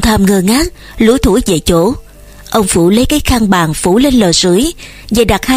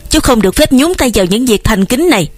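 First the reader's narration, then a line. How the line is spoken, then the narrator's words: Irritable snapping. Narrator (Vietnamese): Ông Phủ gắt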